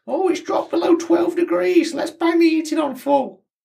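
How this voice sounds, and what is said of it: Imitates another person's voice. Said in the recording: “What accent is that? ... Yours. That is a bang on impression of you.”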